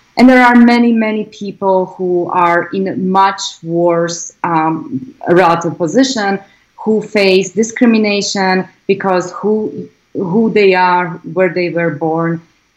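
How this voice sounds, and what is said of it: Foreign-accented English, Slovak. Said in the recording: “when I open my mouth, everybody can tell that I'm an immigrant. I will never lose my accent”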